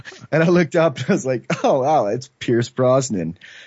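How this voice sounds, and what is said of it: Usual voice. Nothing is said of it.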